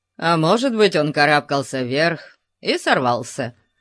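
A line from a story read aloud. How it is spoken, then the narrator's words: Grumbling. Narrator (Russian): проворчал Конан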